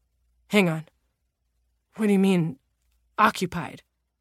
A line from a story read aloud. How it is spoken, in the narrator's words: stammered